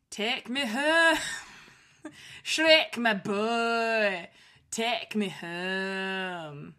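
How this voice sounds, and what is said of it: Put-on Scottish accent. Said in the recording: “You gotta do it with a Scottish accent.”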